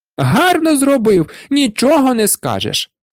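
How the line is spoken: Shrieking wife. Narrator (Ukrainian): верещала дружина

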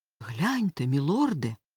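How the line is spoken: Weak exhausted mutter. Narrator (Ukrainian): в нього ледве вистачило сил пробурмотіти

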